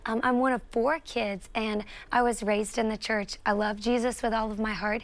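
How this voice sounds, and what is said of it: Southern US accent. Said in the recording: “I'm a South Carolina girl. If you can't tell from my accent, I love the South.”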